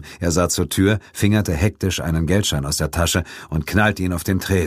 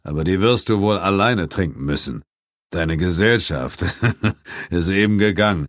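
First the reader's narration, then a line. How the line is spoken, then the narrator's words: Added. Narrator (German): ergänzte er, und mit einem heiseren Lachen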